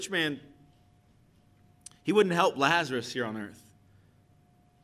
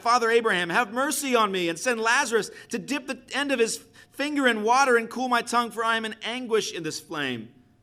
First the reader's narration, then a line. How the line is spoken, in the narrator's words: called out